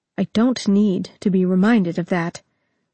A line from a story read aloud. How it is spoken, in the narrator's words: Jaina said, a touch too sharply